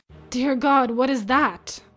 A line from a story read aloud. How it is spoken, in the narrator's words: whispered